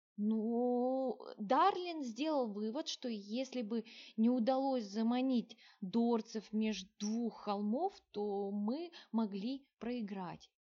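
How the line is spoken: Even more uncertain mumble. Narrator (Russian): еще более неуверенно пробормотал Мелир

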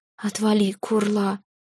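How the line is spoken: Dazed mumble. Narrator (Russian): пробормотала я, еще не до конца придя в себя

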